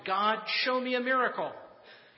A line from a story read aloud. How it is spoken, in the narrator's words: the child shouted